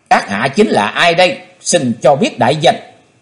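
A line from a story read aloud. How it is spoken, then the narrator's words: Disappointed, stern question. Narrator (Vietnamese): Chí Tôn thất vọng nghiêm nghị hỏi lão nhân mặt đỏ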